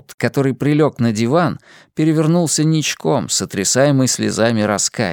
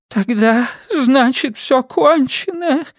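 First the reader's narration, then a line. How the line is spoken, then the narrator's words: Sobbing tearfully. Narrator (Russian): всхлипнул Тоуд, орошая слезами диванные подушки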